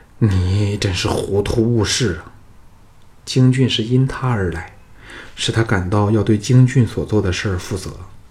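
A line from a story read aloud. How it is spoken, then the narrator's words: Sighing in dismay. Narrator (Chinese): 藤义跌足叹道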